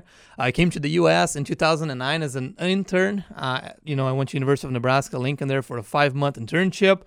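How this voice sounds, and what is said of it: Brazilian accent. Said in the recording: “charming accent here, I come from Brazil”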